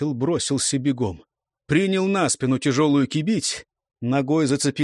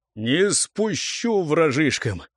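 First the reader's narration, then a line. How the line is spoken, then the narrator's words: Repeated through gritted teeth. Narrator (Russian): повторял сквозь зубы Марнава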